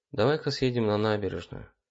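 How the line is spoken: Very weak voice. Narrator (Russian): я говорил очень слабым голосом

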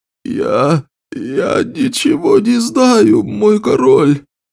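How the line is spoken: Whimpering. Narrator (Russian): прохныкал Эммет

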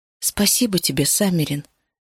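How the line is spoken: Quiet. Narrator (Russian): тихо сказала

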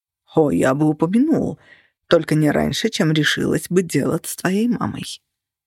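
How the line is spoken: Hoarse. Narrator (Russian): хрипло ответил он

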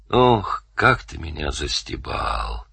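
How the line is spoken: Through gritted teeth. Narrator (Russian): процедил Данил сквозь зубы

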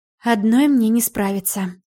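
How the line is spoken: Sighing. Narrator (Russian): вздохнула я

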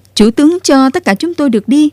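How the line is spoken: Loud cheering crowd. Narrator (Vietnamese): Tiếng reo hò ầm ầm nổi lên

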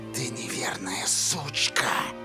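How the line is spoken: Whisper. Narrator (Russian): прошептала Корделия

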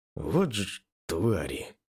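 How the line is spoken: Heavy sigh. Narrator (Russian): Тяжело вздохнул я

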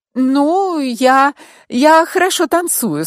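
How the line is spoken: Slightly unsure, smiling. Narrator (Russian): сказала Натали и чуть неуверенно улыбнулась

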